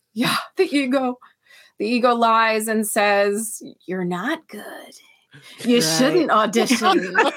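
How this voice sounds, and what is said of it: Scary character voice. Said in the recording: “I love your scary voice.”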